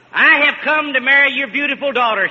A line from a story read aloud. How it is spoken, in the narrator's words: shouted the knight